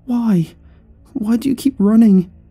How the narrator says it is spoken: she whimpered

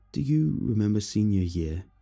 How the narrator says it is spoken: Jeff asked

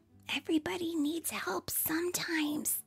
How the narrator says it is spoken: Molly whispered to her mom

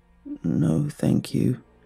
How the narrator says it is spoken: the girl replied in a hoarse voice

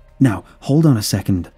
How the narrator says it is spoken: I exclaimed, seeing where it was heading

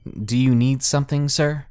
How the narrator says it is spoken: trying to hide my nerves, and I stammered

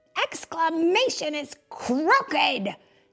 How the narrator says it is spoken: yelled Gee Whiz

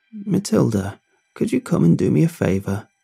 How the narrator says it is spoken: Bobby croaked from upstairs

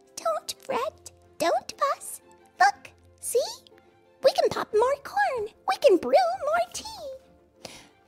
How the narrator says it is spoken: Mouse squeaks

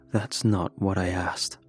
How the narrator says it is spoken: he said

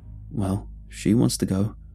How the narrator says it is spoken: Brom nervously smiled

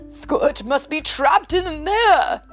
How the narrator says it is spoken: shouted Professor Inkling

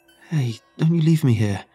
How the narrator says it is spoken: he cried out, fear in his eyes

